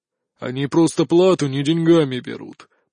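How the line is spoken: Grumble. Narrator (Russian): проворчал он

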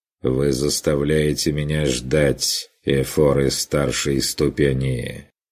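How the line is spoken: Dry statement, man. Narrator (Russian): Сухо констатировал мужчина

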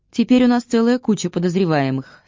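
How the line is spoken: Plain. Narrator (Russian): сказал он

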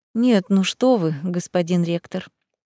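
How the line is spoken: Very polite and soft. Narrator (Russian): произнесла предельно вежливо и мягко

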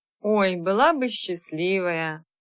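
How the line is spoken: Sad sigh. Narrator (Russian): грустно вздохнула красавица Света

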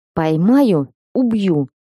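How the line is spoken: Hoarse mutter. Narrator (Russian): хрипло пробормотала я

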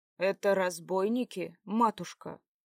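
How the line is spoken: Plain. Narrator (Russian): спросил Ярослав

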